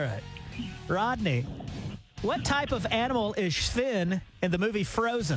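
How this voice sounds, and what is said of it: Usual voice. Nothing is said of it.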